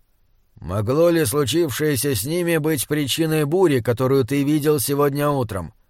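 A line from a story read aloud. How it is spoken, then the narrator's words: Prince's gloomy question. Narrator (Russian): спросил принц мрачно, как будто услышал дурные вести, которых давно ждал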